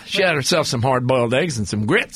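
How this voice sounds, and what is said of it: Puts on a silly accent. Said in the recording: “that stupid accent”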